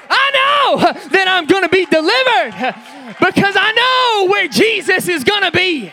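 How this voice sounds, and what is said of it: Loud, excited, impassioned preaching. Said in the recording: “forgive me for getting excited today. I'm not yelling at you. I'm not screaming at you. I'm just excited. I'm just passionate.”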